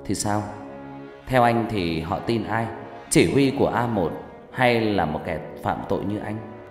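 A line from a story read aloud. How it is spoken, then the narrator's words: Smiling, provocative. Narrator (Vietnamese): Hằng mỉm cười, nói bằng giọng đầy khiêu khích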